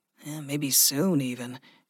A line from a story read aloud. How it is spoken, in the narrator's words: Gregory murmured